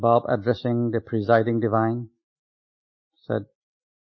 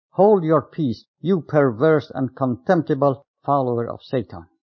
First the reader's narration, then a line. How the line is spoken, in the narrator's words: That evil man furiously retorted